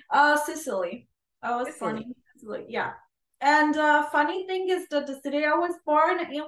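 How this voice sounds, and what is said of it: Thick Italian accent. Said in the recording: “You have such a thick Italian accent.”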